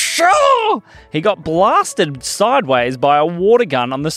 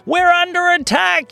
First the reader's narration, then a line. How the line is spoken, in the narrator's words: yelled the kids